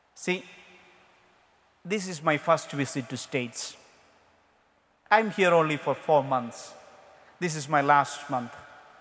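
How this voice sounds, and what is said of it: Indian-accented English. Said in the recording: “I don't have American accent. ... in our mother tongue in India, we speak all the languages very fast. We are taught British English.”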